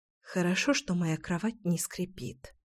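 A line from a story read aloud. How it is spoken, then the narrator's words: Whisper. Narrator (Russian): прошептала я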